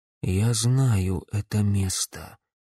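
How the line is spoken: Quiet. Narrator (Russian): тихо произнес парень

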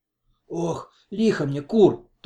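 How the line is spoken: Involuntary moan. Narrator (Russian): только и простонала непроизвольно

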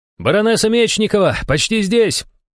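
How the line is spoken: Shout from below. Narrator (Russian): выкрикнул снизу Иван

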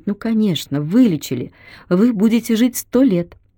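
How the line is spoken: Hopeful female voice. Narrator (Russian): Она произнесла это с такой сильной подспудной надеждой

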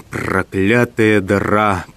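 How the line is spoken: Growl. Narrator (Russian): прорычал гость

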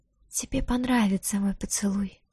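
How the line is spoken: Hungry seductive whisper. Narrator (Russian): прошептала с голодной улыбкой вампирша

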